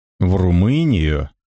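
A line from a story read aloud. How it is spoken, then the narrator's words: Disappointed drawl, lively sailor. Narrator (Russian): Протянул разочарованно бойкий матрос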